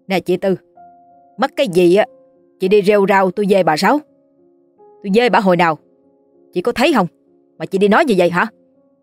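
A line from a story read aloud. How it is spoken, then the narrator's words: Angry shout. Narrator (Vietnamese): hét lên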